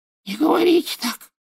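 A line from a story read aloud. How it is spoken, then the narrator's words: Whisper. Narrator (Russian): прошептал он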